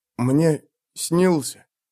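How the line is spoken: Whisper. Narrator (Russian): шепнул

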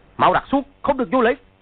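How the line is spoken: Stifled laugh, shouting. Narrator (Vietnamese): Lương trưởng lão cố nhịn cười, quát

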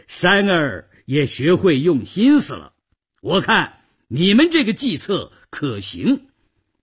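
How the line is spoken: Happy laughter. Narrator (Chinese): 宋江高兴地笑了起来

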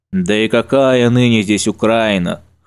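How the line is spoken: Snort. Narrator (Russian): хмыкнул Панас

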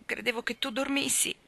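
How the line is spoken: Sobbing. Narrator (Italian): singhiozzò ancora

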